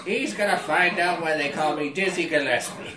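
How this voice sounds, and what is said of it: Old boy character voice. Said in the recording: “put on the old boy voice.”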